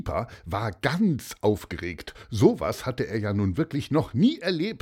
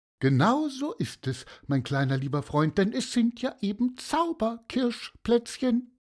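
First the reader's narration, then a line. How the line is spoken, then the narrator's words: Friendly seagull voice. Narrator (German): sagte die Silbermöwe mit freundlicher Stimme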